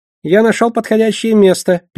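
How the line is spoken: Squeaking. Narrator (Russian): пискнул он

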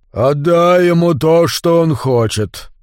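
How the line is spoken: Deep resonant bass. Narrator (Russian): Глубоким басом, который по воскресеньям на утренней службе так выделялся в хоре баптистской церкви, заговорил Стив Мэлори

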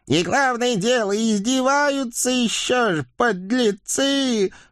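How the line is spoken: Old woman's angry howl. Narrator (Russian): В сердцах взвыла старая ведьма

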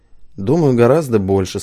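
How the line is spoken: Said with a snort. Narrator (Russian): сказал Вахид Тажиевич, хмыкнув

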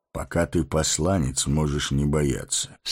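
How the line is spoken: Calm. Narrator (Russian): спокойно сказал Гэндальф

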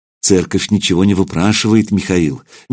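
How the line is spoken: Gentle correction. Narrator (Russian): мягко поправили его

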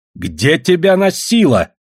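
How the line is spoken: Barking snap. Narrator (Russian): снова рявкнула Радиша

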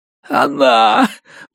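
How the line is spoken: Moaning, beaten man. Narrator (Russian): простонал избитый

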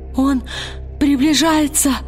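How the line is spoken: Sobbing shout. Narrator (Russian): рыдающим голосом крикнул Бальтамос

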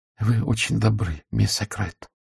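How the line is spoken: Quiet. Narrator (Russian): тихо сказала Урсула

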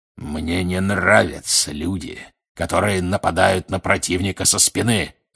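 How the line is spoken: Growling. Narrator (Russian): рычал Грюм

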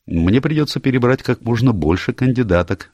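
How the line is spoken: Cheerful reply. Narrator (Russian): весело ответил Адам

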